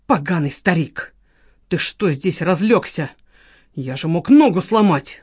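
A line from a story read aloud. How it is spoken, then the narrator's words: Hissed. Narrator (Russian): зашипел Валера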